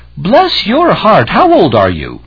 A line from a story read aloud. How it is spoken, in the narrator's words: an elderly woman cried out